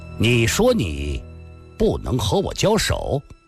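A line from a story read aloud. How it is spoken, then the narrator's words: Stern, harsh. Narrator (Chinese): 郭松阳厉声地说道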